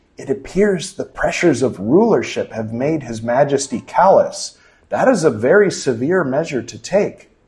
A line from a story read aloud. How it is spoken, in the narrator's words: The shaman whispered back respectfully